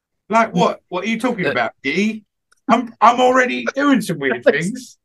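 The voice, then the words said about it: Put-on accent. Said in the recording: “in that accent”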